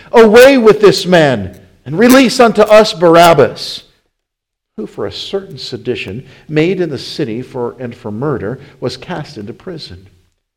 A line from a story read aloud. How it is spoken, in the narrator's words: they cried out all at once, saying